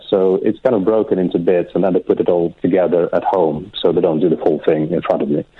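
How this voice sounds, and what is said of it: Slight foreign accent, appealing voice. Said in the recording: “I'm noticing a little accent of yours... He's got a great voice... It's wonderful... That's a sexy voice.”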